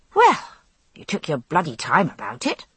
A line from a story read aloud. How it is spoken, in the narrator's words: I said crossly